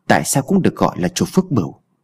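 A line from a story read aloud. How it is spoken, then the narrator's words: Muttering. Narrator (Vietnamese): Anh lẩm bẩm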